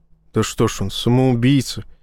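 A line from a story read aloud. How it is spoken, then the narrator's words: Grumble. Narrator (Russian): буркнул Фон Рей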